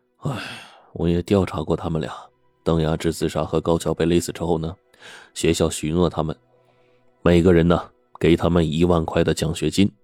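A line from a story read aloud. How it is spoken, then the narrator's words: Dejected sighing. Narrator (Chinese): 对方唉声叹气的说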